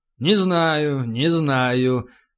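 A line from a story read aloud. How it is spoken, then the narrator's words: Thoughtful drawl. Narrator (Russian): задумчиво протянул капитан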